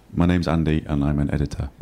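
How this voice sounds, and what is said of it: Imitates another person's voice. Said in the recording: “I'll do a perfect impression ... you sound annoying.”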